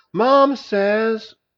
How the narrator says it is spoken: shouted

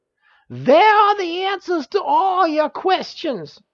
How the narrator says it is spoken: shrieked Uriel

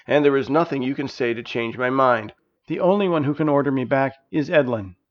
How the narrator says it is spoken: Bead firmly replied

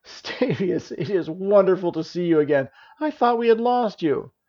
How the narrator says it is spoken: Janice cried

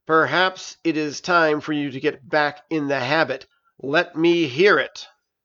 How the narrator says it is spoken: The ancient dragon growled

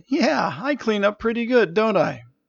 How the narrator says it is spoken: Jenna laughed and said

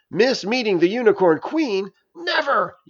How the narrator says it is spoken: yelled Narayana

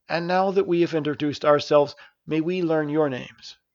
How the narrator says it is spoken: Mills gently asked

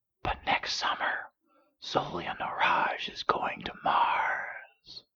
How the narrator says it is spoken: whispered

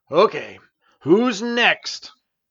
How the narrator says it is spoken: Stavius growled

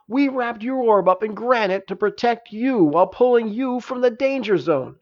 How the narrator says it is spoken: exclaimed Janice

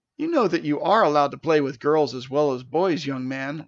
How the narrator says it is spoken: laughed Mrs

